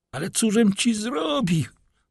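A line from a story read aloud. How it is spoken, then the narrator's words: Frantic cry. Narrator (Polish): zawołał Wilford, bliski utraty zmysłów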